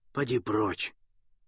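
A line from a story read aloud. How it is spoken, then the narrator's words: Hoarse. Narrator (Russian): Челкаш хрипло сказав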